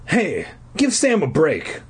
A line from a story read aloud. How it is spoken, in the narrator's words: Corey cried angrily